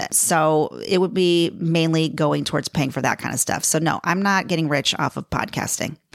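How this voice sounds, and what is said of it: Chicago accent. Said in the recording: “My accent is, is a Chicago accent. ... I still have a Chicago accent that still comes out ... when I hear the recorded voice of myself, I'm like, oh, yeah, I'm totally Chicago.”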